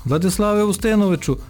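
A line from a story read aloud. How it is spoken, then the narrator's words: Shouted. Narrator (Ukrainian): крикнув Тимур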